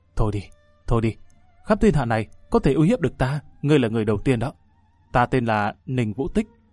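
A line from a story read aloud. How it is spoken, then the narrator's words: Sighing fairy. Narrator (Vietnamese): Thấy bộ dạng tiểu nhân đắc chí của hắn, tiên tử thở dài nói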